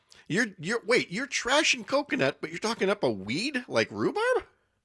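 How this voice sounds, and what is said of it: Voice rising high in pitch. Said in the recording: “see how high my voice got? I clearly feel strongly because my voice went up here”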